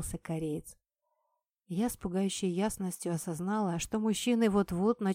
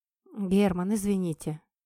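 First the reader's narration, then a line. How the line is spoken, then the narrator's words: Sighing speech. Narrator (Russian): вздохнув, сказала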